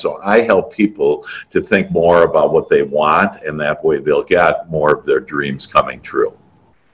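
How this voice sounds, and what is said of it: Wisconsin accent. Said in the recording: “my uh, undergraduate is in business from UW uh, Wisconsin. That's where that accent comes in”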